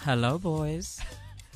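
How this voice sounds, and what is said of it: Low, sultry bedroom voice. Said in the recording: “That was so sexy. ... He literally has his bedroom voice on because he never talks like that. ... That sounds like bedroom voice.”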